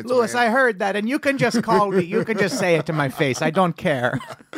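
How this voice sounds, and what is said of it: Put-on Irish accent. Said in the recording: “why did that slave have an Irish accent? ... It was supposed to be a Jamaican accent.”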